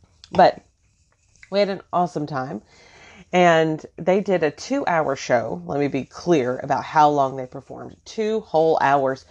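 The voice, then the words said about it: Voice sounds a bit off. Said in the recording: “my voice is kind of off today”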